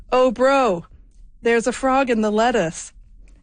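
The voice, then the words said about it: Attempted Australian accent, admittedly poor. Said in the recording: “I'm going to do this in my best Australian accent here ... I really can't do an Australian accent.”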